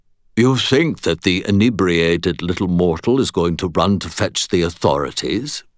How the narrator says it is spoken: purred the creature's voice

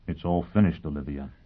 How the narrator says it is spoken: he said gently

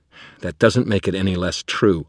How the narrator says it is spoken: snapped

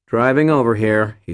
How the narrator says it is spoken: he said

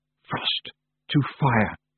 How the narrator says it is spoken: she whispered

